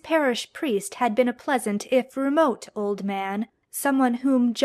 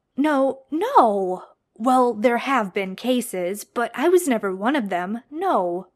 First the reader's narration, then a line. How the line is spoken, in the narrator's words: John stammered